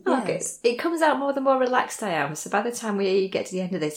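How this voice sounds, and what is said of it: Northern English accent. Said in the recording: “I'm from Lancashire. I don't think I've ever really lost that lilt. ... I certainly haven't got a southern accent. ... I can hear the northern.”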